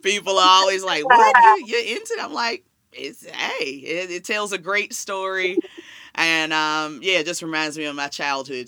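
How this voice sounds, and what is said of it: Southern American accent. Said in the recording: “As everybody hears my southern accent”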